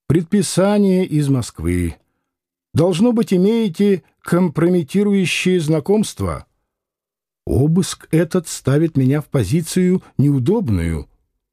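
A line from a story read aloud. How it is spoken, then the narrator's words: Sighing, warm voice. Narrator (Russian): Ротмистр вздохнул и сказал теплым голосом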